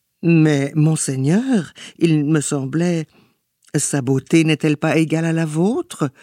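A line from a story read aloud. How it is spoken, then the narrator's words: Timid, crestfallen stammer. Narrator (French): balbutia timidement le scarabée déconfit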